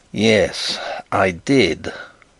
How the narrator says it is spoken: growled Bertram

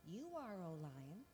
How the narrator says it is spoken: The giraffe replied meekly

